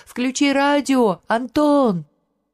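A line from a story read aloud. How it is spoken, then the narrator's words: Three voices shouting. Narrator (Russian): Все трое кричали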